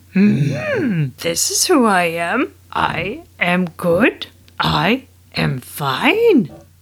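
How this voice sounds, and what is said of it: Bad Yoda impression. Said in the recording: “That was the worst impression of Yoda ever.”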